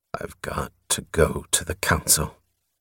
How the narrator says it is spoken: Through locked teeth, he breathed to himself

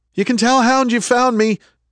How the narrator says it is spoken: he shouted

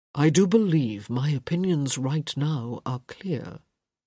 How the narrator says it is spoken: he said softly

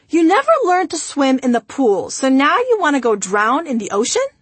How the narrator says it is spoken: father, who, once he stopped laughing, said

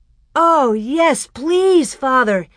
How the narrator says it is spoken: Almanzo almost shouted

